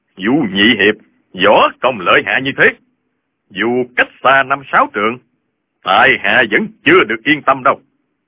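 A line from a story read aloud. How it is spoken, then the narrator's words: Old man, smiling. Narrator (Vietnamese): Lão Hành Khớp mỉm cười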